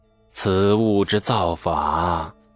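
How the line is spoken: Deep, solemn. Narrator (Chinese): 李世民沉声地说

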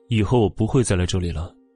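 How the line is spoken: Calm, indifferent. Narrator (Chinese): 左印神色淡淡的

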